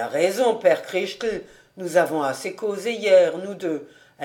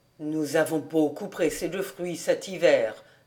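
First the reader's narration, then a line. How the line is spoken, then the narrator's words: Plain. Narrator (French): dit Christel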